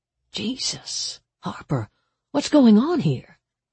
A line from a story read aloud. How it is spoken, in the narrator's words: Detective Springer murmured